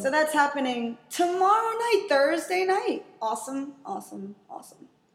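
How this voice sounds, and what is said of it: Announcer-style radio voice. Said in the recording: “Is that your radio voice?”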